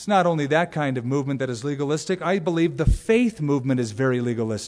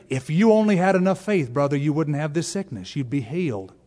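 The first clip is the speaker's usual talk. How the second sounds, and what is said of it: Put-on Southern American accent. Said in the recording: “why do I always do a southern accent?”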